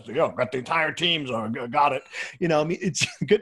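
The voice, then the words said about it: Imitates another person's voice. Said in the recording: “Was that a good impersonation? ... That was a great impersonation.”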